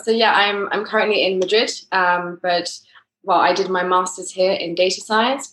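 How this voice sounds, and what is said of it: English accent. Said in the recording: “I'm originally English, as my accent... definitely not a Spanish or a French accent”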